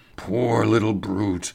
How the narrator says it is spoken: he murmured

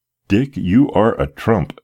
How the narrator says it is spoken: exclaimed the gratified father

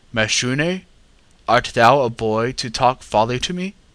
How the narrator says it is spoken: I answered

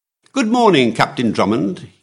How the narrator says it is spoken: cried cheerfully

